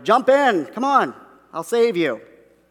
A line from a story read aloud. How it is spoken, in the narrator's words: the guy in the motorboat shouted